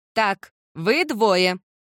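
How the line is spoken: Commanding shout. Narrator (Russian): крикнула тетя Элизабет командирским тоном

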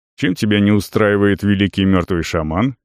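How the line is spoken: Snorting. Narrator (Russian): хмыкнул Арон

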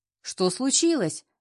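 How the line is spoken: Shouting. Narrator (Russian): кричал Алексей

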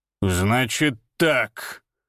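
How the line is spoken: Growling. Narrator (Russian): прорычал он

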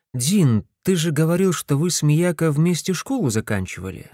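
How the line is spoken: Plain. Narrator (Russian): спросил я

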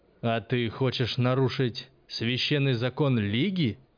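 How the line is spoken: Growl. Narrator (Russian): прорычал помнящий

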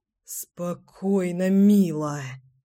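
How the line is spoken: Aroused groan. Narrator (Russian): простонал Семен, чувствуя, как вновь начинает возбуждаться от ерзания девчонки на его бедрах

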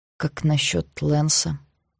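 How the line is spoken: Near-whispered question. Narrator (Russian): Очень тихо, почти шепотом спросил Эш

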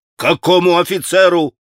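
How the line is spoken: Yelling. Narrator (Russian): вопил Митя

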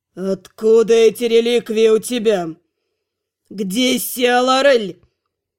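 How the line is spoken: Hoarse rasp. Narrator (Russian): Делиаль прохрипел

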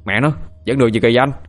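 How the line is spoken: Shouting. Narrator (Vietnamese): thằng Sinh hét lên

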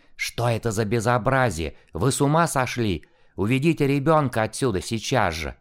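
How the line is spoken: Angry hissing. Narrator (Russian): злобно зашипела на маму

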